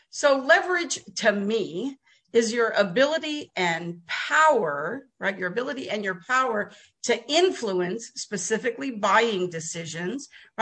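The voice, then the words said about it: New Jersey accent. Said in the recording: “I was born in Jersey too ... I'm a Jersey girl ... I could tell by your accent. ... You don't have a Texas accent yet.”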